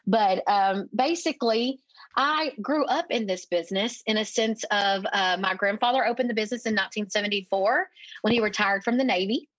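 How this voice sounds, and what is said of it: East Texas accent. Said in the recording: “I'm a little East Texas town here, if you couldn't tell by my accent”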